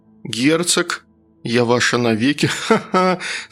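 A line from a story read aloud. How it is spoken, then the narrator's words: Laughing in a new voice. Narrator (Russian): засмеялась я, услышав свой новый голос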